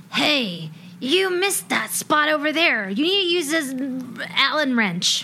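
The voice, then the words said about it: Nasal, edgy nerdy character voice. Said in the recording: “It is like a nerd voice that's been drinking a lot of whiskey ... It's got some edge, but some nasal.”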